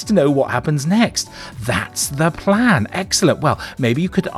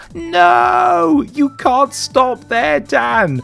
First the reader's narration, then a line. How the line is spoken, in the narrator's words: Jamie has just shouted out